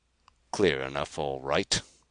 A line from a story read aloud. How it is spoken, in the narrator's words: growled Carr